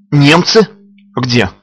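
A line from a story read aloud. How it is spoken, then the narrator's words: Frightened. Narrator (Russian): испуганно откликнулась она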